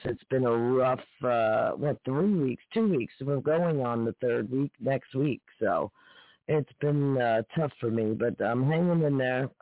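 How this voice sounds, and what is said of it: Tired-sounding voice. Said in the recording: “I sound tired, I am”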